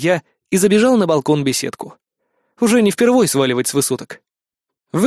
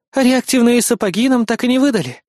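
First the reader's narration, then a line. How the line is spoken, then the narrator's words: Sigh. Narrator (Russian): вздохнула помощница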